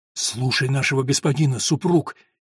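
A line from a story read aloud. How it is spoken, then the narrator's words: Frightened whisper. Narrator (Russian): испуганно прошептала Агнес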